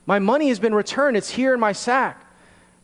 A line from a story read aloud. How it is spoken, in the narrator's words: he exclaimed